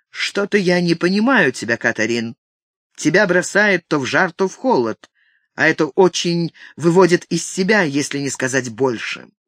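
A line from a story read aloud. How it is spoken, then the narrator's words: Cold, distant tone. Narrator (Russian): сказал ей незнакомым, отчужденным тоном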